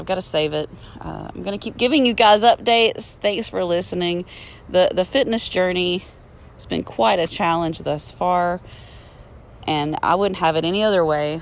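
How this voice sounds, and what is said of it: Strained, fading voice. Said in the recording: “I'm losing my voice.”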